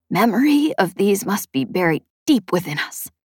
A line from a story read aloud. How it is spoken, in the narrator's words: Chet whispered